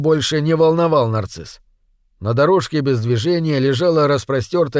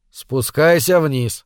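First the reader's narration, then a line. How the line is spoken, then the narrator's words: Tired repetition. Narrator (Russian): устало повторил Буни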